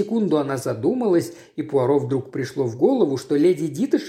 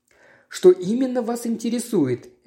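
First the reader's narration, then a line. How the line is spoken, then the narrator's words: Cheerful question. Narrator (Russian): весело спросила она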